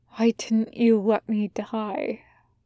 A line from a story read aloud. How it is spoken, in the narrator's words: Jack whispers